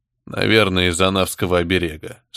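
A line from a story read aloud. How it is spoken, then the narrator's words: Bored tone. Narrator (Russian): скучным тоном отозвался Кортес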